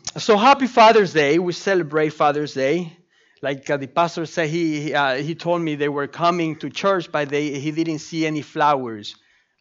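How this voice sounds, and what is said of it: Speaks with a noticeable accent. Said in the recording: “I have an accent. So please bear with me”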